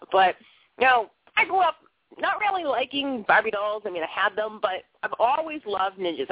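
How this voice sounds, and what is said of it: Boston accent. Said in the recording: “I talk funny. I have a Boston accent.”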